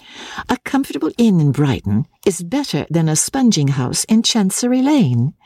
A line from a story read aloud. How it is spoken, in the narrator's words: his wife answered cheerfully